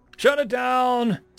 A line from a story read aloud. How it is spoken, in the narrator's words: screamed the Admiral